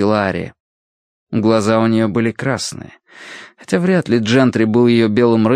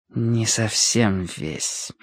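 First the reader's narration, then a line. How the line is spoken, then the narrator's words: Irritating near-whisper interjection. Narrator (Russian): вмешался Уолсон своим раздражающим почти шепотом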